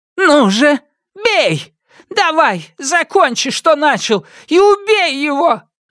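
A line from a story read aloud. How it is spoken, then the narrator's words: Old woman screaming. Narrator (Russian): закричала старуха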